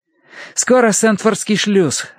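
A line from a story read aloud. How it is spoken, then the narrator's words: Joyful announcement. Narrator (Russian): радостно объявил Терренс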